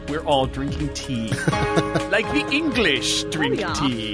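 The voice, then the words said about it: Poor, pompous-sounding English accent. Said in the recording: “That wasn't even an English accent. ... It just sounded kind of pompous.”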